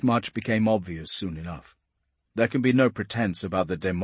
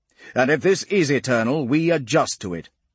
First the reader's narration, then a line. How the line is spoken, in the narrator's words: says Memnon sharply